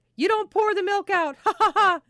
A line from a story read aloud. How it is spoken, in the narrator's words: she hollered